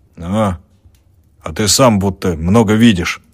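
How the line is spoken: Grumbling. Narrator (Russian): проворчал хозяин

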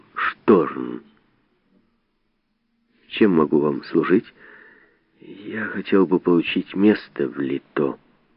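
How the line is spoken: Quiet. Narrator (Russian): Тихо сказал

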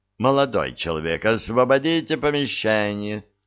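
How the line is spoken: Stern. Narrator (Russian): строго произнес Кефер

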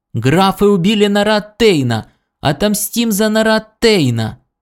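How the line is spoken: Piercing shout. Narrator (Russian): Бывший диктатор пронзительно закричал

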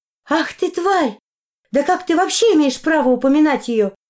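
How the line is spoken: Shouting. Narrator (Russian): закричала моя подруга

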